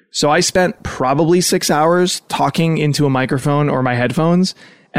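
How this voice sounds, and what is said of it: Strained, nearly lost voice. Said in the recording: “you maybe already can hear this, but my voice is not what it usually is ... I woke up today without a voice”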